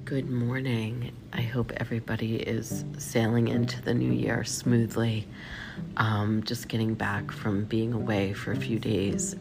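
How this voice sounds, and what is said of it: Congested, sick-sounding voice. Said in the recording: “I'm definitely sick... I have some kind of head cold, so forgive my voice.”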